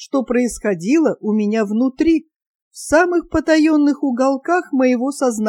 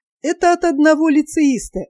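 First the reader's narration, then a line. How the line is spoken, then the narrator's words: Says laughing. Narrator (Russian): засмеявшись, говорит она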